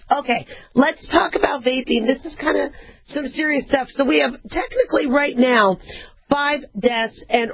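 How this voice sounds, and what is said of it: Hoarse, worn-out voice. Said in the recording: “lost my voice ... I'm sorry I lost my voice”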